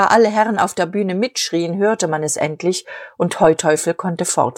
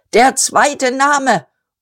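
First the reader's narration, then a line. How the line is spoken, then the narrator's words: Shouting. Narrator (German): Dazu schrie er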